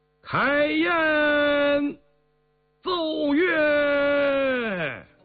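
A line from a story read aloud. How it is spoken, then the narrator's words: Loud shout. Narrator (Chinese): 允祀便大声叫道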